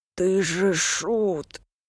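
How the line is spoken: Breathless exhale. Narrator (Russian): выдохнул старший брат

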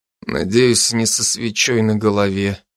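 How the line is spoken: Glum smirk. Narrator (Russian): уныло усмехнулся я

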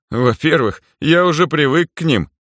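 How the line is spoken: Snorting. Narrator (Russian): хмыкнул Гарри

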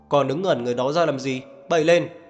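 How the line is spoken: Barked order. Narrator (Vietnamese): chỉ quát lên với đám thợ

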